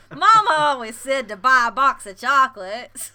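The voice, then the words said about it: Slurred drawn-out country accent, Forrest Gump. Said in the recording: “Can you do Nashville? ... I'm just slurring all my words and drawing them out like a good old country person ... That's not Forrest Gump's voice at all.”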